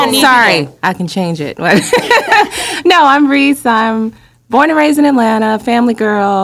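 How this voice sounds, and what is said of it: Usual voice. Nothing is said of it.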